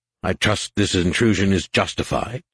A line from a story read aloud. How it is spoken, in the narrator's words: he said sharply